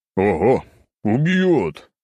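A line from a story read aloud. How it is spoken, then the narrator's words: Chuckling. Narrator (Russian): хохотнул я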